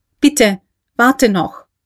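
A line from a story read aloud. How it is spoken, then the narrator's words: Very loud call. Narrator (German): rief schon sehr laut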